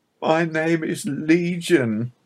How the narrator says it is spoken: he cried pathetically

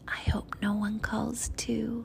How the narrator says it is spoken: she whispered to me

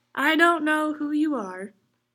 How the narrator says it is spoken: he said

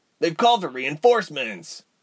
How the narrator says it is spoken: Ren grunted under Ilse's weight

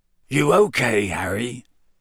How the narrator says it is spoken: Hagrid muttered

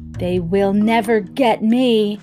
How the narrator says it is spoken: Harriet said very loudly

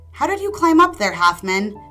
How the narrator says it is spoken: shouted the ogre

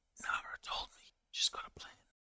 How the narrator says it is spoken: he'll whisper

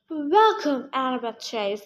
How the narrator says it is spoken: the monster cried

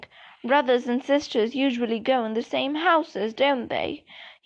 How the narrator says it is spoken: said

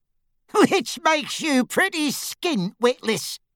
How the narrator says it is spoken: said a cackling voice

